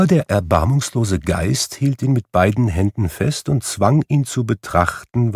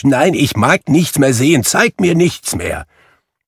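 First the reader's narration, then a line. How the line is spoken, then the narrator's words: Calling out. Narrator (German): rief Scrooge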